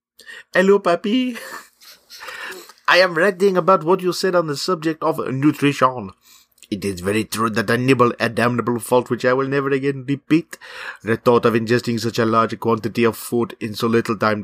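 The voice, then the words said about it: Put-on French accent. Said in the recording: “Do we require the accent? ... I mean, do you know it's French? ... Let's just go French.”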